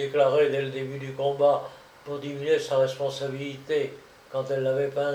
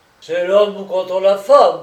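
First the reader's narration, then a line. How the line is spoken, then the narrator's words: Roar of pain. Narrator (French): avait-il rugi quand elle l'avait mordu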